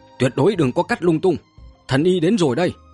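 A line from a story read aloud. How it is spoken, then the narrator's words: Loud shout. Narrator (Vietnamese): lớn tiếng hét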